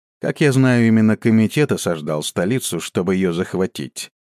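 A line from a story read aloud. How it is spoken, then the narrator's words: Dry, unsmiling. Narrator (Russian): без улыбки на лице сухо произнес Хуман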